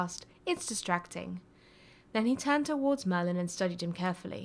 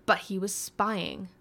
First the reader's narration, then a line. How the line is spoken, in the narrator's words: the first spat